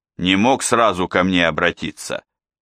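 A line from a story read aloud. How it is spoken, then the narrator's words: Plain. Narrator (Russian): сказал Берия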